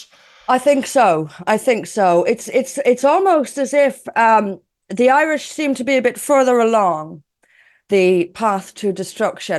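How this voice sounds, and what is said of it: Dublin Irish accent. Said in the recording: “You can probably tell by the accent, I grew up in Dublin”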